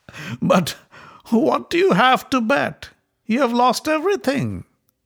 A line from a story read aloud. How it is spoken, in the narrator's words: Shakuni laughed and said